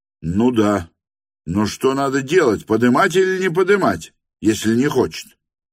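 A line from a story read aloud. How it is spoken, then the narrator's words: Shout. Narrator (Russian): крикнул офицер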